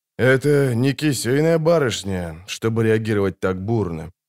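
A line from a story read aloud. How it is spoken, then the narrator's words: Grumbled. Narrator (Russian): буркнул он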